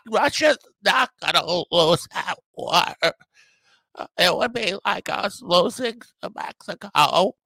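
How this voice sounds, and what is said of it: Imitates another person's voice. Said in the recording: “Pretty damn good RFK Jr. impression ... that incredible RFK Jr. impersonation”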